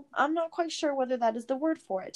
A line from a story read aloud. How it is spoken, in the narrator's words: Tom said cheerfully